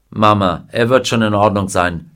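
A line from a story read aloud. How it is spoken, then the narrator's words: Plain. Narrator (German): sagte Mr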